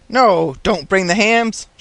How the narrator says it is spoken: shouted Jim Croft

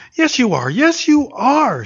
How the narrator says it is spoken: she cried, turning away her face that he might not see her brimming eyes

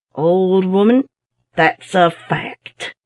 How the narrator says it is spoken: Being anxious to put to flight all her doubts at once, he said solemnly

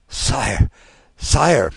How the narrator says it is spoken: murmured the minister

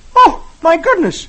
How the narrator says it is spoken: He exclaims

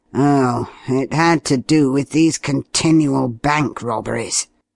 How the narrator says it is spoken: he replied with a sigh

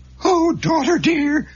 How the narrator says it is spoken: her mother cried

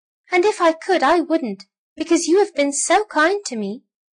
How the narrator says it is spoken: squeaked the little mouse toy

